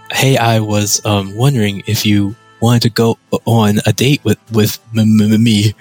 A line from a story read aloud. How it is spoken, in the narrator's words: Ted stammered